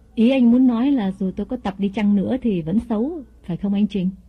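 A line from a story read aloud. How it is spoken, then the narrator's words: Smiling question. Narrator (Vietnamese): Mỹ mỉm cười hỏi lại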